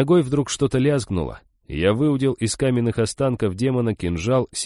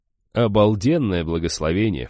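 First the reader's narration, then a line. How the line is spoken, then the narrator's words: Scoffing snort. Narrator (Russian): фыркнул я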